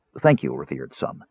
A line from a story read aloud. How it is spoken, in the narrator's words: Danubis murmured, not certain what else to say